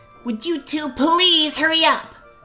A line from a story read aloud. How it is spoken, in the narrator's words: remarking loudly